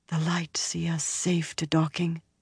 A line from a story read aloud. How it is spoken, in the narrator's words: the Windfinder breathed